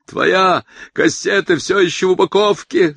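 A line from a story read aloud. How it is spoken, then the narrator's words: Yelled from behind. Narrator (Russian): заорал отец из-за его спины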